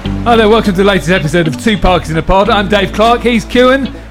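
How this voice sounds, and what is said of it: Polished radio presenter voice. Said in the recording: “radio voice, right? Podcast voice.”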